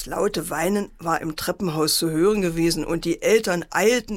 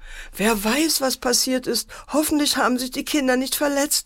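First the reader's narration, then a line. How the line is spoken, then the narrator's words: Mother wailing. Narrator (German): jammerte die Mutter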